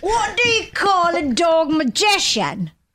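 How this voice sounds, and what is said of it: Put-on Cockney accent. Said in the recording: “Such your Cockney accent. ... Brad Pitt in uh, Snatch.”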